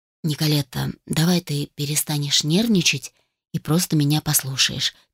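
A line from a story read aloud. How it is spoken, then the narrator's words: Quiet request. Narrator (Russian): тихо попросил он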